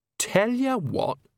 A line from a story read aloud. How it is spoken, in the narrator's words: she said brightly